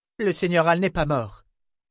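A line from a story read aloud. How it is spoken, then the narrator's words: Shouted. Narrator (French): cria Kara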